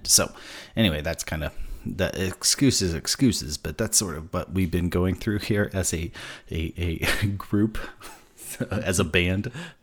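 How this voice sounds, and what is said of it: Sick-sounding voice. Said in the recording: “I got like very massively sick. Even still, you can probably hear it in my voice. I'm a little bit still sick.”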